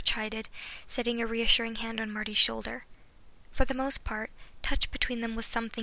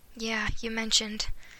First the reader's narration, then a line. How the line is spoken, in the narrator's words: Marty sighed